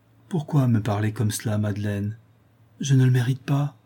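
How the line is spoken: Sad. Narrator (French): dit tristement Morel

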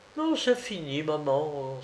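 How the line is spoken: Young woman exclaiming, holding back grief. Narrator (French): s'écria la jeune fille, qui avait réussi à réfréner presque subitement sa douleur

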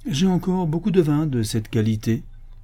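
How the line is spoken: Cold. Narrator (French): dit froidement le cuisinier

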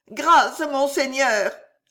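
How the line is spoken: Moaning steward. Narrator (French): gémit l'intendant

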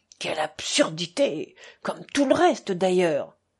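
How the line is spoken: Murmured. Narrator (French): murmura

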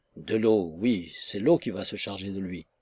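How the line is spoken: Resigned grumble. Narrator (French): grommela d'un ton résigné

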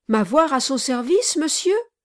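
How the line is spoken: Exclaiming. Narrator (French): s'écria Kit

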